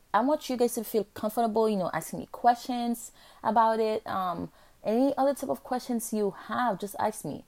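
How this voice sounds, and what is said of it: Speaker with a noticeable accent. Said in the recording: “I know I have an accent”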